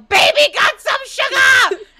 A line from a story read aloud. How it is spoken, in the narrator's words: Sam yells out